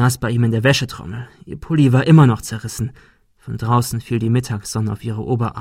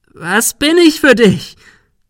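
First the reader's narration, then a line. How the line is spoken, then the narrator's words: Shriek. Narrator (German): Sarah kreischte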